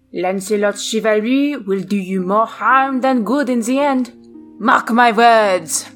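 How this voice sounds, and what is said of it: Bad put-on French accent. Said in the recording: “With my terrible French. Terrible French accent.”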